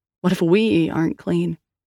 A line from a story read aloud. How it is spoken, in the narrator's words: Liam sighed